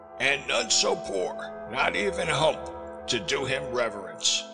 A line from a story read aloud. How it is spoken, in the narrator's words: he sneered